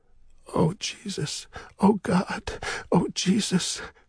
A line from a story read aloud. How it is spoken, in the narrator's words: he said weakly